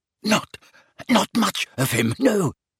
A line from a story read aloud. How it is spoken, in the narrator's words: gasped Belby, his eyes streaming